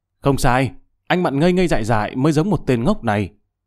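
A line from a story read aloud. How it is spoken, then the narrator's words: Sudden loud laughter. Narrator (Vietnamese): Người thanh niên đó đột nhiên ha hả cười lớn, nói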